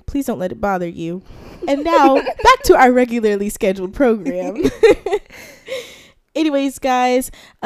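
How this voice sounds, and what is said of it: Congested, stuffy head-cold voice. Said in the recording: “I have a head cold. The allergies are getting to me. So if you hear that my voice is disgusting”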